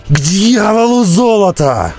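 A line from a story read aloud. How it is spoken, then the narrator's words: Shrill squeal. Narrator (Russian): взвизгнул Роди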